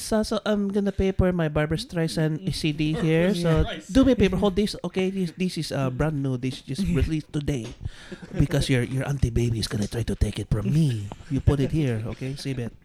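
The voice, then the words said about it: Put-on Filipino accent. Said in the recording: “That's how I got so good with the Filipino accent.”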